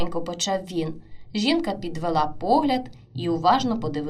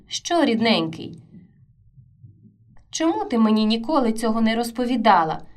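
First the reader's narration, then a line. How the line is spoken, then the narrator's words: Calm smiling reply. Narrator (Ukrainian): Вона відповіла, спокійно усміхнувшись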